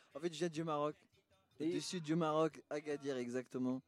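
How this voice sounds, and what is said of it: Speaks French with Moroccan accent. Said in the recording (French): “avec mon accent, c'est kilomètres ... ton accent, toi”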